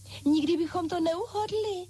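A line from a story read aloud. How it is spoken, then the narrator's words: Exclaimed together. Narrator (Czech): zvolali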